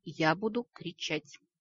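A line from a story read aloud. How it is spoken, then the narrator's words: Quiet but firm. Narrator (Russian): Вампир тихо, но твердо заявил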